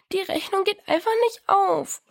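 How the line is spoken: Sobbing. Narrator (German): schluchzte Diana

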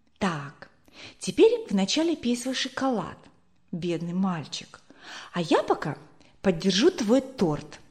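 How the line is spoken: Whisper. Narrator (Russian): прошептала ему

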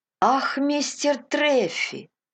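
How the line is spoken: Exclaiming. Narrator (Russian): воскликнул Кристи

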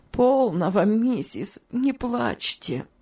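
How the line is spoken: Sobbing woman. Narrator (Russian): сказала тетушка Хлоя, в свою очередь раздражаясь рыданиями

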